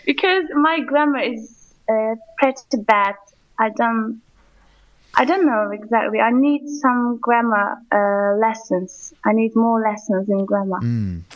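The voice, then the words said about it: Quite English-sounding accent. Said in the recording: “you have like quite an English sounding accent.”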